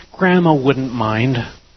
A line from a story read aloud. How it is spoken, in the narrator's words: she continued to plead